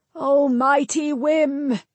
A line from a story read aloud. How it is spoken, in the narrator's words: Nevin called out